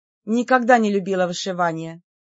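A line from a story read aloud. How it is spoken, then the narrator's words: Snorting. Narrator (Russian): фыркнула я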